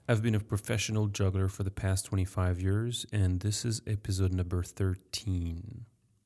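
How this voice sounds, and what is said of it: French accent. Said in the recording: “I'm French, sorry for my accent.”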